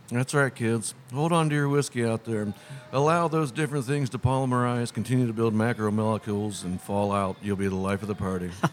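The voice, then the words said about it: Flat public-access-TV monotone. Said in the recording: “your monotone, public access monotone voice”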